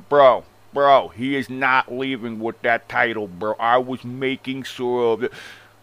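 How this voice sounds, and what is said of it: Exaggerated fake accent, imitating someone. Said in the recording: “This shit is the fakest fucking accent I've ever heard of ... The fakest accent”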